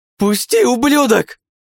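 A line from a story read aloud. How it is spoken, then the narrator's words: Yelled. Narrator (Russian): завопил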